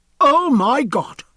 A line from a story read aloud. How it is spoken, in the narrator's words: cried